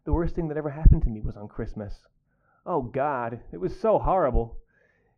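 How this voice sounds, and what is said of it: Wistful Phoebe Cates impression. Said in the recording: “your best Phoebe Cates impression ... You've got to stare off wistfully in the corner as you speak.”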